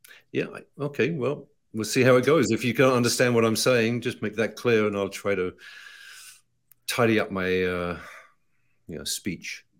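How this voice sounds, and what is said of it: British English accent. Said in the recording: “I still have an accent ... you do, but it's okay. Americans like the British accent.”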